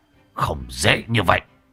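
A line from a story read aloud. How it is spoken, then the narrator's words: Sharp shout. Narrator (Vietnamese): kẻ giấu mặt kia quát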